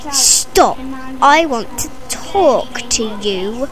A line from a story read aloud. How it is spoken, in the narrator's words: He growled fiercely